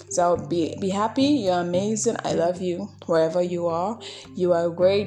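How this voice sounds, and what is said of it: Speaks with an accent. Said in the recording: “Please pardon my accent.”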